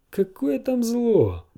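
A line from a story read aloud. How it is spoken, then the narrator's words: Laughing. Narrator (Russian): засмеялся он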